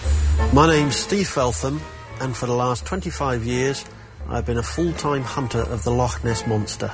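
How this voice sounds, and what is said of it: English accent, not Scottish. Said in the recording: “It's not Scottish, so I'm confused... Sounds like he may have come to Scotland from Britain... From England.”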